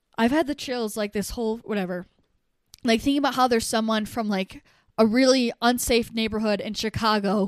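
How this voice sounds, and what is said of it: Emotional voice. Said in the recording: “getting emotional”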